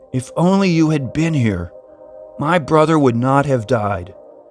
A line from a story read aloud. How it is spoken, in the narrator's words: cried, as if with reproach